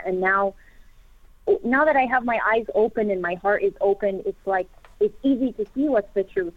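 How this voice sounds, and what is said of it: American accent. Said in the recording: “I presume from your accent, that I think you said you're originally from the U.S.”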